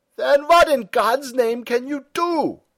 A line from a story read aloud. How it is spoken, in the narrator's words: shouted Stumm